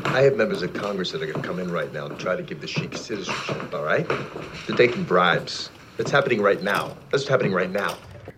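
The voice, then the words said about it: Vague New York-Boston accent. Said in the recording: “whatever accent he's doing. New York, Philadelphia, I can't tell. ... It's vaguely New York, I guess. There's kind of a little Boston in there.”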